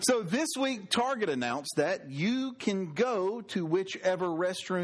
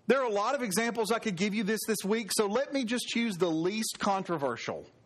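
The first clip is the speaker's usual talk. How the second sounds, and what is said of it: Sarcastic delivery. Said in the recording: “That was sarcastic.”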